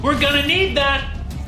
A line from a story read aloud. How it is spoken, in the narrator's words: Max yelled